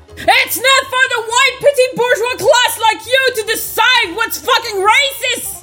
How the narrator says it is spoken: screeched at fucking Hermione

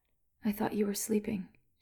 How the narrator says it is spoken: she said, half a whisper

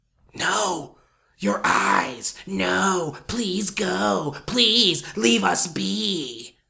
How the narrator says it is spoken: it whispered

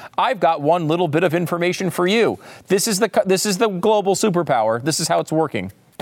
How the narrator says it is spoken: before being interrupted

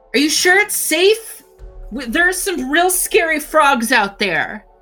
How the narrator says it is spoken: The girl's gonna shout

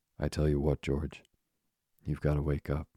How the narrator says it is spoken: he said sharply

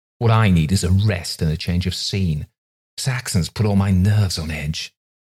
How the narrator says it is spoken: he snapped, and then added self-pityingly

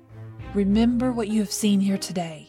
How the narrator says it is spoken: said

